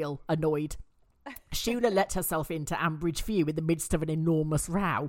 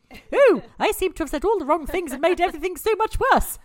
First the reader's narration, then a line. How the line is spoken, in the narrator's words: said Shula happily